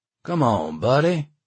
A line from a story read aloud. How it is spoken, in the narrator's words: the one worker said, his voice now edged with a taunting edge